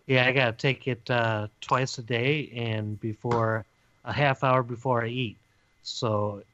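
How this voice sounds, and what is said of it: Slightly raspy voice. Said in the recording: “My voice is a little raspy, ... It always is, I guess.”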